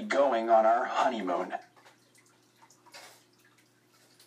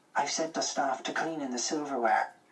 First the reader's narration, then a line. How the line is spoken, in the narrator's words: Ma whispered